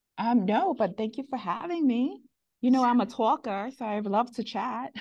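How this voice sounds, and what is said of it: New York accent. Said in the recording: “That awesome New York accent ... I love your New York accent”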